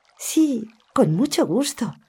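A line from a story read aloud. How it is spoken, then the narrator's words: Happy child's exclamation. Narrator (Spanish): exclamó la niña, muy contenta de poder hacer un bien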